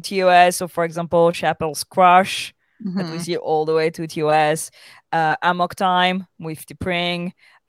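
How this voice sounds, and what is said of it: Speaks with a noticeable accent. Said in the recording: “I'm completely distracted by ... accent”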